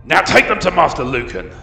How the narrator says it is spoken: Bargeld barked

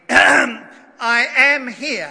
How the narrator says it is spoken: said rather loudly

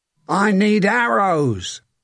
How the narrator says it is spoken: a man shouted

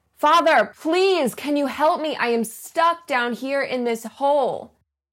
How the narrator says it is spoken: the guy shouts up

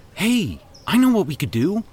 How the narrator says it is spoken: Randy exclaimed

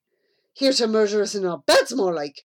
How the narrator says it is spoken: snapped Amy

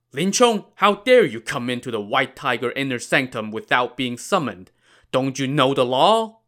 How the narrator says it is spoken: Gao Qiu shouted sternly

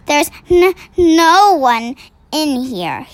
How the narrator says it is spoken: he stammered

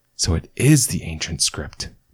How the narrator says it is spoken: murmured Shona, not quite believing it

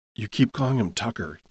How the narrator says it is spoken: Jim whispered back

